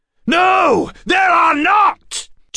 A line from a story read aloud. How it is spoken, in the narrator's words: Jabez shouted